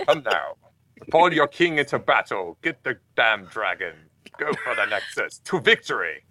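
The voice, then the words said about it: Put-on British accent. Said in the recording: “I do talk in a British accent.”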